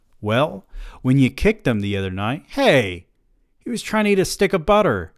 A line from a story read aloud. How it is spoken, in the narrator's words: I exclaimed